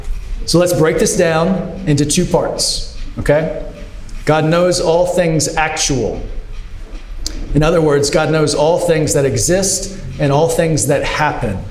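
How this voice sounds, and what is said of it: Noticeable non-native accent. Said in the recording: “my apology for my accent. It comes out when I'm nervous and stressed”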